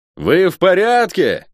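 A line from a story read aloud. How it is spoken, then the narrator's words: Shout. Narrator (Russian): крикнул я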